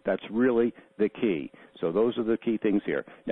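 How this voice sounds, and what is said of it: Hoarse, failing voice. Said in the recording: “excuse me, I'm losing my voice here”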